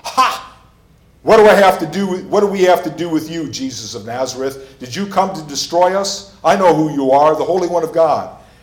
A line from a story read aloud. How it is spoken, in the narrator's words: he cried out in a loud voice